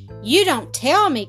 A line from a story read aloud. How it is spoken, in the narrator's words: cried Lightfoot